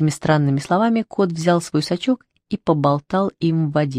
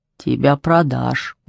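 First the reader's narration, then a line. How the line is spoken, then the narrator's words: Muttered aside. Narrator (Russian): буркнула Шмидай в сторону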